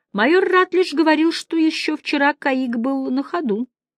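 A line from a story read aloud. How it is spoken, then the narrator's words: Soft. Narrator (Russian): мягко сказал Мэлори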